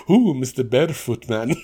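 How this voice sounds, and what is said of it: Imitates another person's voice with accent. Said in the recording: “Why did I did an accent for Michael Cole?”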